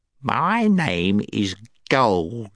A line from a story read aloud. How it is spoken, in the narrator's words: said the gnome